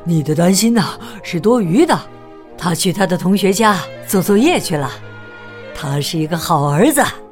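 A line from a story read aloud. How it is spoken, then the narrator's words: Breathless panting. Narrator (Chinese): 老鼠爸爸气喘吁吁的对老鼠妈妈说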